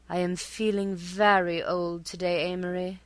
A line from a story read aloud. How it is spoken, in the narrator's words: she would sigh, her voice exquisitely modulated